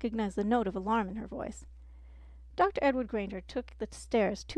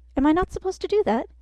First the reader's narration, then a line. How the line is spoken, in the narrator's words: Hermione asked, her voice rising in panic